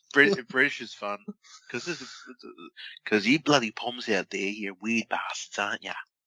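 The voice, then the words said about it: Put-on British accent, weird voice. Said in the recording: “doing a weird voice ... you go British”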